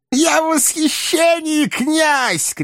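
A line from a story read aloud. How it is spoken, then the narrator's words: Shouting. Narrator (Russian): кричал Коровьев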